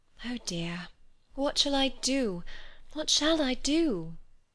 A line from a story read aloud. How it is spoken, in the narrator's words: she sighed to herself